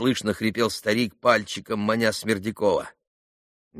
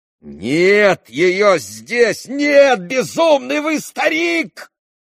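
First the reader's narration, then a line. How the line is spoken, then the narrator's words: Angry shout. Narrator (Russian): злобно закричал на него Иван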